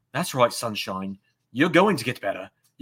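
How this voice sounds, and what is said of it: William Regal impression, Blackpool accent. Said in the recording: “my Regal impression ... a Blackpool impression”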